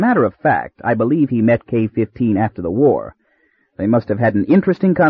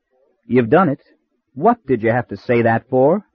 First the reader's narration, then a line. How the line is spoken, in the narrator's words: he remarked in a coldly cynical voice